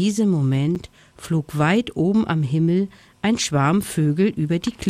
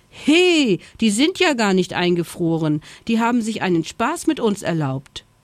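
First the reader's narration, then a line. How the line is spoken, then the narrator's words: Indignant call. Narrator (German): rief Schoko empört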